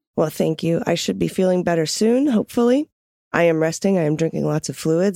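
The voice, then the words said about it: Raspy, sick-sounding voice. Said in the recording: “I am so sick, and so I apologize for my raspy voice.”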